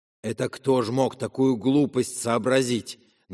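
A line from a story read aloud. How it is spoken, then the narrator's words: Ominous voice. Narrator (Russian): Начал он зловещим голосом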